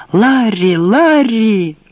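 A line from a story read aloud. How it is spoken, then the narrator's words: Shrill scream. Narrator (Russian): Китти пронзительно закричала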